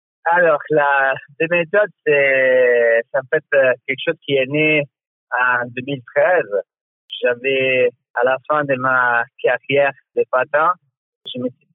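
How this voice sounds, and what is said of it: Italian accent speaking French. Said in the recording (French): “comme on l'entend à ton accent, tu viens d'Italie”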